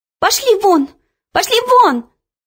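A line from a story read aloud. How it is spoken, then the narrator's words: Shouting. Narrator (Russian): закричала она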